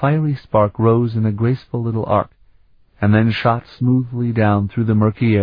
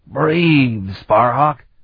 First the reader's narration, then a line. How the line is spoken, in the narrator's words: Kyrick barked